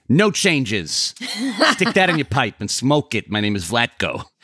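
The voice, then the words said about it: Imitates another person's voice. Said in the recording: “Not very good Vlatko impression.”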